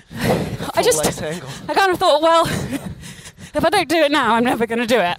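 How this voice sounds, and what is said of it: Out of breath while running. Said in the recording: “I'm not a runner, as you can tell by how out of breath I already am.”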